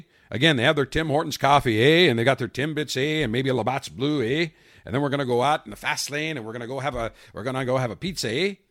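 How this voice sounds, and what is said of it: Mock Canadian accent. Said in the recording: “I can make fun of Canadians. It's okay. They've got a good accent. I can I can I can make fun of that, eh? ... let me talk in Canadian, eh?”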